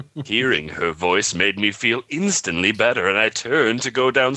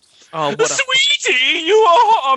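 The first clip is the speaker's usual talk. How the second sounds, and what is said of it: Cheery voice. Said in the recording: “in a cheery voice”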